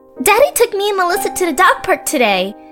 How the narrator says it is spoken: Anne Marie exclaimed

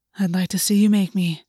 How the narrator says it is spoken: August breathed

